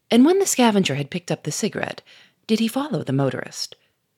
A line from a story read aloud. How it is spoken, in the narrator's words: Gouchard said in a quieter voice